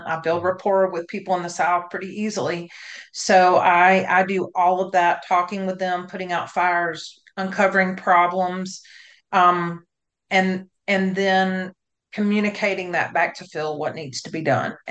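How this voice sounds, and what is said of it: Southern American accent. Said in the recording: “I'm down here in the South. I have a Southern accent.”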